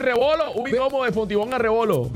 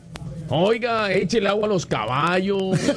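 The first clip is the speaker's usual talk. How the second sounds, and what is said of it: Put-on Mexican Spanish accent. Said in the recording (Spanish): “acento mexicano”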